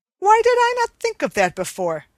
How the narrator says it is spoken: exclaimed the king

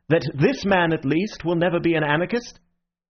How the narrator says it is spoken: called out Ratcliffe to the French colonel

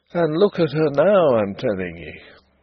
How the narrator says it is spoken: he would say gloomily

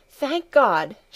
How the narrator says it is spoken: she exclaimed, as Heidi came running in

